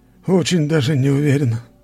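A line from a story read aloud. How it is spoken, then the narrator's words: Man sighing. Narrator (Russian): вздохнул мужчина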